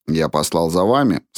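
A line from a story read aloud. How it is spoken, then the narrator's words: Plain. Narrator (Russian): сказал он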